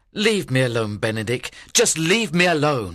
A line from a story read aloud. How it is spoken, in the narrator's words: cried